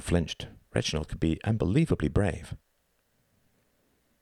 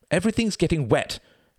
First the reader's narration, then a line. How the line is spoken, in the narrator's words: cried Reginald